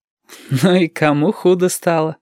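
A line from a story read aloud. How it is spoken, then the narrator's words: Laughing. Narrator (Russian): засмеялся Юртанка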